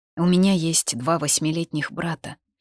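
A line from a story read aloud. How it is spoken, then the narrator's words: Sighing. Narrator (Russian): вздохнув, заговорила я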